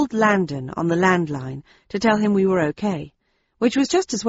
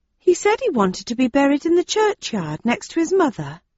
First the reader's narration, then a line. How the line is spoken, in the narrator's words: said another of the villagers in a respectful tone